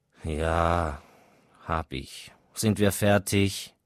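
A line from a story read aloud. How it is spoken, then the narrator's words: Groaning growl. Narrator (German): Sein Sohn stöhnte auf und knurrte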